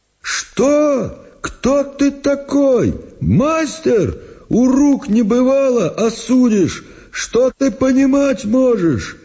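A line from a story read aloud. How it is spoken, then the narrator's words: Shouting. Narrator (Russian): Прокопич закричал, конечно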